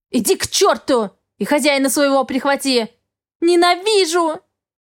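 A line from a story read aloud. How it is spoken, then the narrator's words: Sobbing desperate scream. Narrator (Russian): Схлипнула я и закричала в отчаянии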